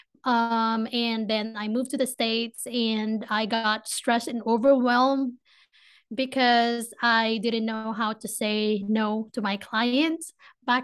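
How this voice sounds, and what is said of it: Filipino accent. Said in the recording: “I have a Filipino accent, so I will try to speak slowly as much as I can, but I tend to speak fast”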